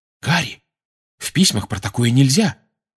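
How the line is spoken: Alarmed exclamation. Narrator (Russian): встревоженно воскликнула Гермиона

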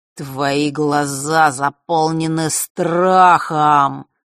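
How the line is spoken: Deep bass voice. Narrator (Russian): произнес он басом

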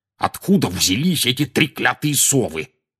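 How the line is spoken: Growling. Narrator (Russian): прорычал он

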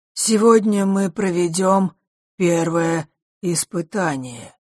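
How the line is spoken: Dull, flat voice. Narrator (Russian): произнес хозяин замка обычным глухим голосом

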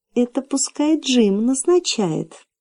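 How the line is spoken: Melodious little voice. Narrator (Russian): Маленькая принцесса сказала своим певучим голоском

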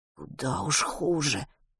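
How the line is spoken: Silently mouthed whisper. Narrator (Russian): одними губами прошептал Матвей

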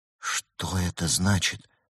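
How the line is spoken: Shocked whisper. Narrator (Russian): прошептала шокированная Берта

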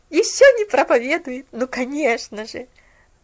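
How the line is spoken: Laughing to herself. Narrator (Russian): Засмеялась про себя Делла

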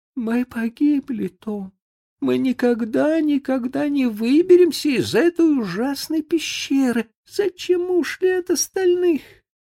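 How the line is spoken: Sobbing. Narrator (Russian): зарыдала

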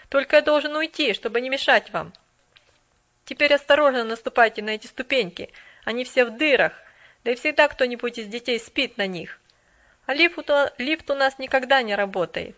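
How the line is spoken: Cheerful. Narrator (Russian): Весело добавил он

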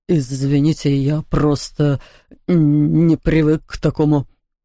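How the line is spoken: Stammering. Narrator (Russian): заикался он

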